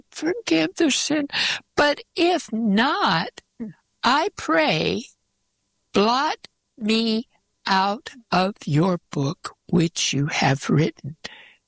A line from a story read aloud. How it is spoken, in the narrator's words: he's pleading